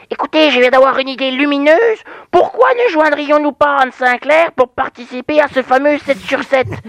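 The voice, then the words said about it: Franc-Comtois regional French accent. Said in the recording (French): “c'est un accent franc-comtois”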